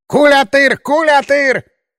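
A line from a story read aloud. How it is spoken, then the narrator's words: Shouting. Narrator (Russian): Заорал вождь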